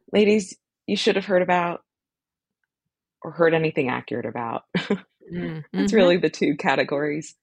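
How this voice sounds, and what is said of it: Sick-sounding voice. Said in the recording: “I'm sick, which is why I sound weird.”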